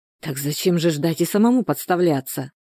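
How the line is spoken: Heated whisper. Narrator (Russian): горячо зашептал Степану Волчок

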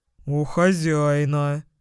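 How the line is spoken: Pleased growl. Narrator (Russian): прорычал он довольным тоном

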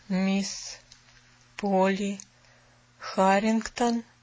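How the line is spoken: Whispered like an incantation. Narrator (Russian): Словно заклинание прошептал он

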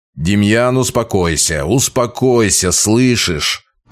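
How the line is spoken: Strained growl through teeth. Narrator (Russian): Тоже рыча, но больше от напряжения процедил я

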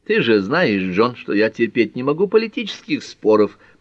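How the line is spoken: Grumbling. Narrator (Russian): проворчала Герми

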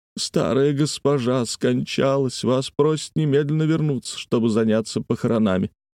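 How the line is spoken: Speaking through sobs. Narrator (Russian): слуга сквозь рыдание проговорил

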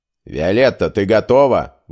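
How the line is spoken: Formal question. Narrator (Russian): вопросил

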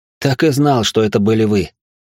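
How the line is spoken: Joyful exclamation. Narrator (Russian): радостно воскликнул

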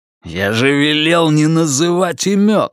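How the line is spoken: Growled. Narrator (Russian): рыкнул перстень

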